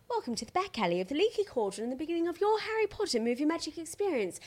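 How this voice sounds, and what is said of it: Put-on English accent. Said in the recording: “I've been working on my English accent”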